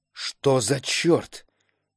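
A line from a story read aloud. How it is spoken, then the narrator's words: Barely audible whisper. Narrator (Russian): едва слышно прошептали его губы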